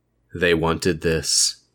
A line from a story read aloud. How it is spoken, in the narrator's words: Jeff replied in a flat voice that Lou had never heard come from his brother's mouth